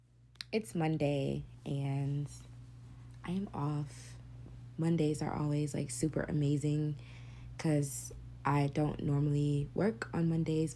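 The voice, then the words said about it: Unusually deep, low-pitched voice. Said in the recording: “my voice is deep today... I know I'm about to have a man voice... my voice is deep as fuck”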